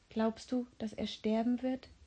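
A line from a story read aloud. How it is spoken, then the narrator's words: Uncertain whisper. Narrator (German): flüsterte Philipp mit unsicherer Stimme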